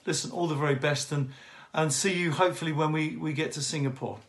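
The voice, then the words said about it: UK accent. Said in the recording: “from the UK ... it's slight accent ... It sounds like Hadley a little bit when he says it with his accent”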